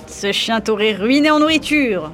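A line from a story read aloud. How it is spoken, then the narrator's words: Sneering. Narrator (French): ricana-t-il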